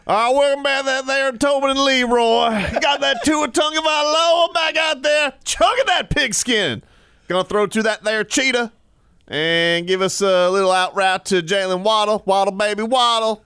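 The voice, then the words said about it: Put-on country accent. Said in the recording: “talking country”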